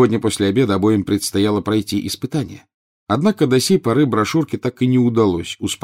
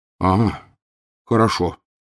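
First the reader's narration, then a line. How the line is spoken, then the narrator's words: Relieved sigh. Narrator (Russian): облегченно вздохнул Рон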